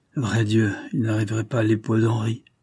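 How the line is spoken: Murmured. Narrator (French): murmura M

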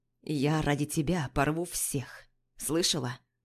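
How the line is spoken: Hoarse voice. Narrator (Russian): Сиплым голосом произносит

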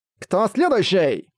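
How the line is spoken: Masked agent shouting. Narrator (Russian): закричал агент в маске тигра

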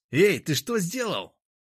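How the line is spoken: Shouting. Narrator (Russian): закричал Владимир

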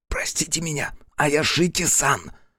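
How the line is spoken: Whisper. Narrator (Russian): зашептал

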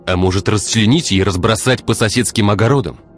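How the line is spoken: Barking. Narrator (Russian): рявкнул Игорь

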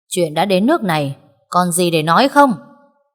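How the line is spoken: Loud angry shout. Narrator (Vietnamese): đưa đôi mắt tức giận quát lớn

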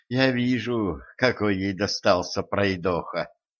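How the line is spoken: Weary sigh. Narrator (Russian): устало вздохнула императрица

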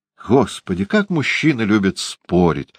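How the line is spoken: Sighing. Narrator (Russian): вздохнула леди Агат

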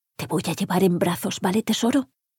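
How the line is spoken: Whispered. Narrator (Spanish): le susurró

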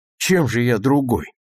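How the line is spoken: Gloomy, angry question. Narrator (Russian): хмуро и сердито спросил

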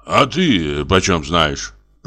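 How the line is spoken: Angry grumble. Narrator (Russian): проворчал Самойленко со злобой

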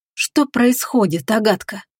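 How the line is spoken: Whispered question to herself. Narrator (Russian): шепотом спросила она у самой себя

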